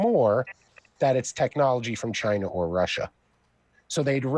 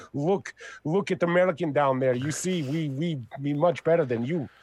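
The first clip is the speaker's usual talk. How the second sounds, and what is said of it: Bad put-on Russian accent. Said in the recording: “my bad was Russian really accent. Really bad ... You started off and okay, and then ... it just fell, failed. It fell flat.”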